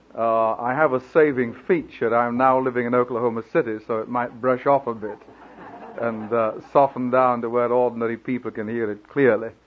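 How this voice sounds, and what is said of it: Speaks with a noticeable accent. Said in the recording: “I hope that my accent doesn't throw you too much”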